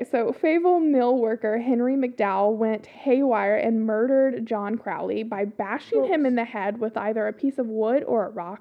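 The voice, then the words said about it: Strong Southern accent. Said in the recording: “my accent comes in real strong this episode ... half of these words are also, like, southern town names”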